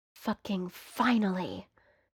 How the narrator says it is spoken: Johnny mutters against Patrick's mouth

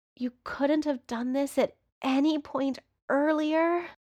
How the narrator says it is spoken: Patrick groans when Johnny starts kissing down his neck

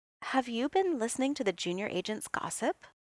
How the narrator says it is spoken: she said, her voice gentle

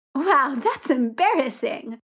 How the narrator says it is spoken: Victor responds brightly

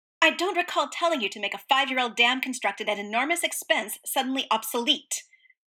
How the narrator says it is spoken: Roy snapped

